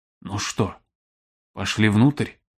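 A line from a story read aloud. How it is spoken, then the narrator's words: Whisper. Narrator (Russian): прошептал он Баю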